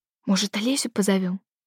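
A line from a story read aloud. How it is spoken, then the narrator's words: Whispered suggestion. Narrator (Russian): шепотом предложила я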